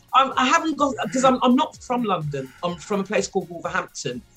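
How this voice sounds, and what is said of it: Mild Wolverhampton English accent. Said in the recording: “you can hear my accent. This is how I really speak ... I haven't got a broad Wolverhampton accent. So I've got sort of an in-betweeny one.”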